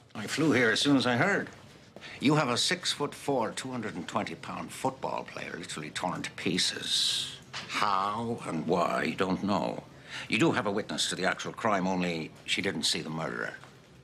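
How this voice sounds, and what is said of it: Bad put-on Irish accent. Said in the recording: “He of the Irish accent, apparently. ... bad Irish accents”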